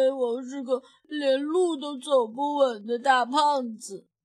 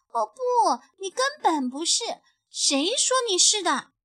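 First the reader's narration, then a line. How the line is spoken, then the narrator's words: Defiant questioning. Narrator (Chinese): 小兔子不服气地问道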